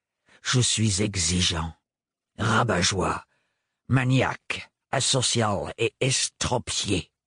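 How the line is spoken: Terrible voice, listing. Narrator (French): énuméra d'une voix terrible

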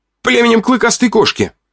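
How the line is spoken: Too-loud shout. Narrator (Russian): выкрикнул я громче, чем следовало

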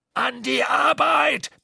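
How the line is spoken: Roaring captain. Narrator (German): brüllte der Kapitän

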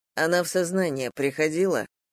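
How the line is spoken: Plain. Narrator (Russian): спросил Дима

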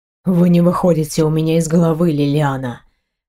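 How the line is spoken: Hoarse. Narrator (Russian): хрипло проговорил он

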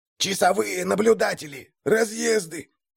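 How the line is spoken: Hissing whisper. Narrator (Russian): раздался свистящий шепот одного из отряда, видимо, старшего

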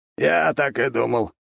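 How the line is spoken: Knowing snort. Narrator (Russian): хмыкнул он

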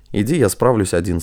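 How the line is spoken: Plain. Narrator (Russian): сказал Василий

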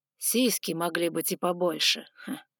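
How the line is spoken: Scornful snort. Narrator (Russian): фыркнул Огненный

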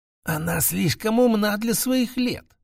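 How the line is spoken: Old women's careful whispering. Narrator (Russian): шептались между собой старейшие женщины, аккуратно выбирая слова

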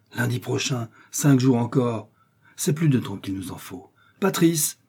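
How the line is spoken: Exclaimed, duke. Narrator (French): s'écria le duc

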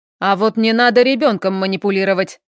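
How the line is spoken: Sharp interruption. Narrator (Russian): резко перебивает он

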